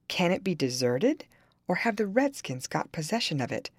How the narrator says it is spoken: I heard my father exclaim

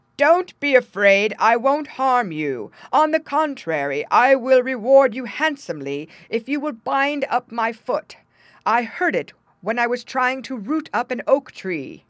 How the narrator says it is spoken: the giant called out

